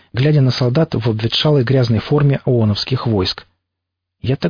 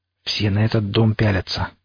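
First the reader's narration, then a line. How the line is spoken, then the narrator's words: Quiet, side-of-mouth. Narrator (Russian): краем рта негромко сказал Пригоршня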